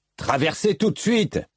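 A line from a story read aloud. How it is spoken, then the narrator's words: Yelled. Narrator (French): hurla Matal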